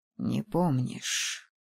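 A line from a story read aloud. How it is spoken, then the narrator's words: Bitter drawl. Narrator (Russian): с горечью протянул он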